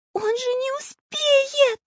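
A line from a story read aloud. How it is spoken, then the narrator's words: Frightened shout. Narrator (Russian): испуганно закричала Настенька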